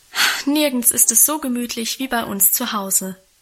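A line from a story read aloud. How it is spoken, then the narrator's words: Contented sigh. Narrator (German): hatte Guste mit einem befriedigten Seufzer versichert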